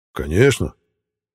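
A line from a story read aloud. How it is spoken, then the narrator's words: Enthusiastic exclamation. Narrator (Russian): С энтузиазмом воскликнул Витязь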